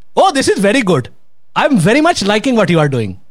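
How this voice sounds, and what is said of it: Put-on Indian accent. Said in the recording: “So an Indian accent... Indian accent would be”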